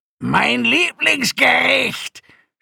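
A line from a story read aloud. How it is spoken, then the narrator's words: Crazy old man shouting. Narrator (German): schrie der verrückte alte Akonide, den alle Jitak nannten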